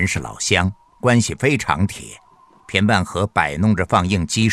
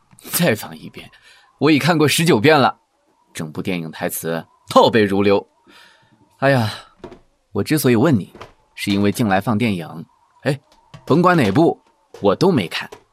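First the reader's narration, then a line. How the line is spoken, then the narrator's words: Faint smile. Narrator (Chinese): 潘荣淡淡一笑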